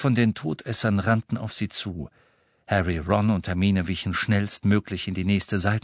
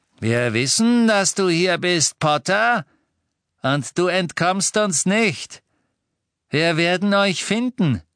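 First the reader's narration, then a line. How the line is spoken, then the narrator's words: Calling out. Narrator (German): rief ein Todesser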